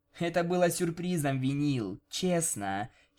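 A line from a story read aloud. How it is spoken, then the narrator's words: Giggling. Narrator (Russian): хихикнула Октавия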